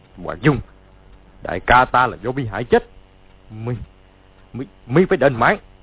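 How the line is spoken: Shouting. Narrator (Vietnamese): quát lên

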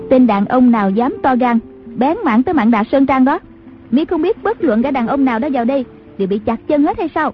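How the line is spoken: Woman's distant shout. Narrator (Vietnamese): có tiếng đàn bà quát vọng ra

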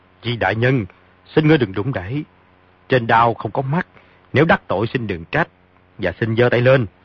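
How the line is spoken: Sharp shout. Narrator (Vietnamese): Phong Tế Trung quát

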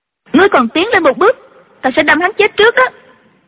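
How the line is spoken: Sharp shout. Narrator (Vietnamese): Chu Chỉ Nhược quát lên

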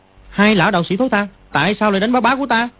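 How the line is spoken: Angry boy's shout. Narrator (Vietnamese): Dương Quá tức giận quát

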